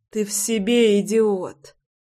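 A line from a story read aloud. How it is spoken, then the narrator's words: Weak moaning indignation. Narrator (Russian): простонала Руся и вяло возмутилась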